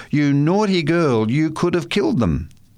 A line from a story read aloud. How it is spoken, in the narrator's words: cried Kathy